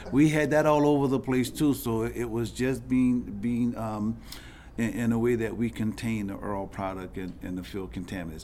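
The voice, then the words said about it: Strong regional accent. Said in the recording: “I have a terrible accent. The Earl that was in the ground, the OIL.”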